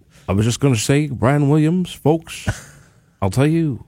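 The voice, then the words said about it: Poor imitation of another person's voice. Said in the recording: “That's a terrible impression. ... That's not very good. ... You sound like Dr. Evil.”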